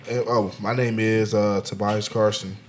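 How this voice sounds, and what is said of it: Put-on radio announcer voice. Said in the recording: “I'm using my radio voice.”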